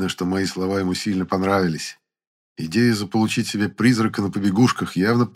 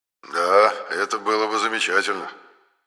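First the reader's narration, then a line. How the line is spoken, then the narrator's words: Sighing. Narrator (Russian): вздохнул Енох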